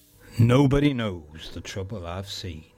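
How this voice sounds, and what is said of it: Put-on accent. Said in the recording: “I don't know why I said it in that accent.”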